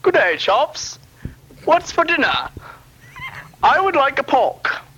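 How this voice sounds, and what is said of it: Put-on English accent. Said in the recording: “He's apparently from England, according to his accent”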